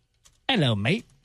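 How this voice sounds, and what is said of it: Bad attempted Australian accent. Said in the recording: “I think that's a southern accent. ... Really bad accent. ... I was trying to go for the New Zealand or Australian.”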